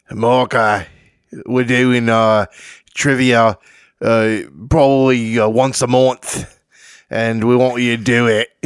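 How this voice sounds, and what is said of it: Put-on Australian accent. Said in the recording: “I'll give you my best Australian accent”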